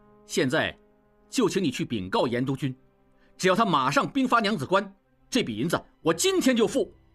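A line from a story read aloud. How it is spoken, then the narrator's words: Serious, stern. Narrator (Chinese): 应季止住笑，正色道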